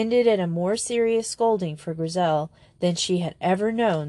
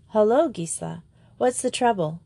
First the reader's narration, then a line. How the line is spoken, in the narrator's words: she said cheerfully